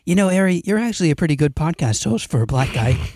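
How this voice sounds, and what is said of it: Imitates another person's voice. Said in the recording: “Here's my impersonation of Austin ... Oh my god! That's so good!”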